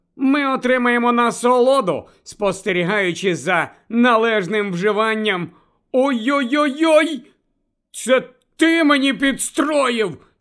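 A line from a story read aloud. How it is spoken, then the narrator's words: Angry grumble, sucking finger. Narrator (Ukrainian): сердито буркнув Рон, смокчучи порізаного пальця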